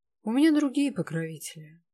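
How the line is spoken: Sigh. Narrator (Russian): вздохнул он

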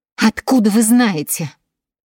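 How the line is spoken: Breaking voice exclamation. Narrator (Russian): воскликнула Элизабет срывающимся голосом

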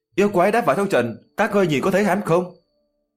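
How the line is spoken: Hurried shout. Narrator (Vietnamese): Diệp Chí Thu vội vàng quát lên

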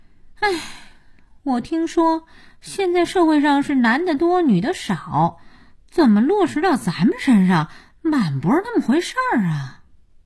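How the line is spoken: Sighing. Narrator (Chinese): 佳音叹气

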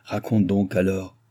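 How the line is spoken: Old man grumbling. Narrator (French): grommela le vieillard

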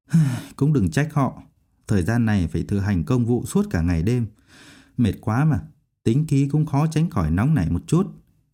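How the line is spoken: Sighing. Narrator (Vietnamese): thở dài

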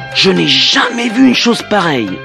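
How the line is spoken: King's enthusiastic exclamation. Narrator (French): s'exclama le roi enthousiasmé

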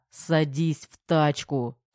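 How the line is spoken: Man, through gritted teeth. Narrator (Russian): сквозь зубы процедил мужчина

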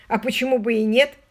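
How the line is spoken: Irritated reply. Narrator (Russian): раздраженно ответил Лео

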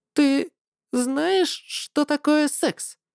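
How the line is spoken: Trembling voice. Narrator (Russian): спросила она уже подрагивающим голосом

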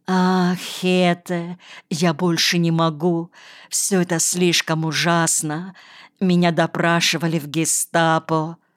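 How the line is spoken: Anguished moan. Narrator (Russian): Энно простонал

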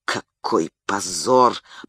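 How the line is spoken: Shocked mutter. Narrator (Russian): пробормотал потрясенный

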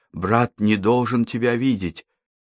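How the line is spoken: Frightened whisper. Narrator (Russian): Эль испуганно шепнул Житкову

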